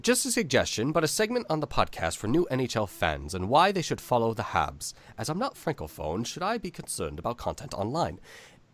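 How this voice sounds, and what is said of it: Poor put-on English accent. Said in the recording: “I know that was not a good accent, but I tried very hard. ... that was a sick Englishman”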